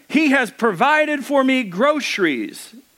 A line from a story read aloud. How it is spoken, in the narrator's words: she cried out